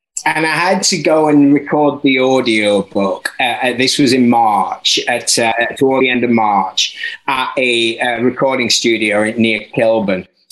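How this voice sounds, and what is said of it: Mostly Yorkshire accent, slightly London. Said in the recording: “my slightly top-end, mostly Yorkshire, little bit London accent”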